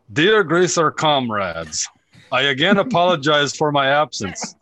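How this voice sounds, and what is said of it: Put-on Russian accent. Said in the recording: “I need to try to brush up my accent here because I got accused of being Canadian and not this person's heritage”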